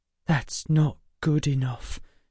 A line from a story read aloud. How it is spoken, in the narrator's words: she whispered